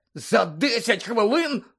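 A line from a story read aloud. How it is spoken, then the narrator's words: Hoarse rasp. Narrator (Ukrainian): прохрипів Гаррі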